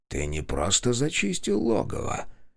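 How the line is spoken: Quiet. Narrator (Russian): тихо произнес он

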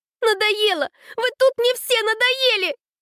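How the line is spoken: Yelled. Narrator (Russian): Заорала Аня

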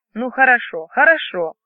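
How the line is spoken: Grumbling husband. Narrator (Russian): проворчал муж

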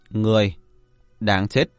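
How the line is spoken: Cold and calm. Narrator (Vietnamese): Vẻ mặt của hắn ta lạnh lùng, bình tĩnh nói

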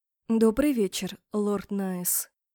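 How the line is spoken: Quiet speech. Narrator (Russian): негромко сказала я

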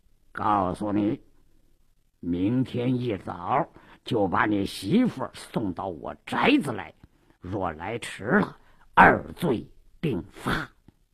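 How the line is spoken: Lowered threatening voice. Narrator (Chinese): 鲁斋郎压低了声音

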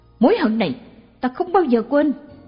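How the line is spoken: Shouting. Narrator (Vietnamese): Anh ta hét lên

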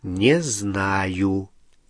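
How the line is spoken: Slow answer. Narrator (Russian): медленно ответил Гарри

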